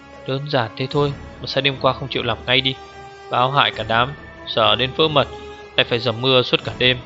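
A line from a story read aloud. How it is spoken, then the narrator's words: Blurted muttering. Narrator (Vietnamese): Dù Hữu Thích bột miệng lầm bầm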